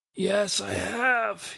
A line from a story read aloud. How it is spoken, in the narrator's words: he answered, his voice breaking to a squeak